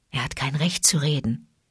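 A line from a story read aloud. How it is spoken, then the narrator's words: Whispered. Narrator (German): flüsterte Bagheera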